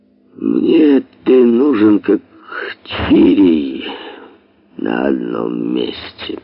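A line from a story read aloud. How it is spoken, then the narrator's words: Slow. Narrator (Russian): произнес он медленно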